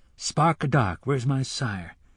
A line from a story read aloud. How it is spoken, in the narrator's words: the boy murmured